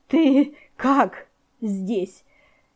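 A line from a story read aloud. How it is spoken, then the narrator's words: Breathless hoarse rasp. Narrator (Russian): едва переводя дыхание, прохрипела княгиня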